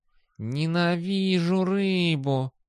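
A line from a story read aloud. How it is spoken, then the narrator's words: Cat, through gritted teeth. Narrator (Russian): процедил кот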